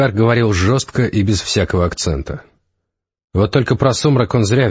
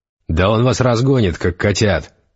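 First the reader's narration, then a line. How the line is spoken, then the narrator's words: Angry mage. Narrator (Russian): сердито сказал один из светлых магов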